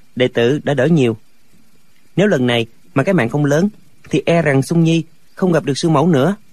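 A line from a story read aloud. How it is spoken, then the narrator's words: Smiling reply. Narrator (Vietnamese): Lệnh Hồ Xung mỉm cười đáp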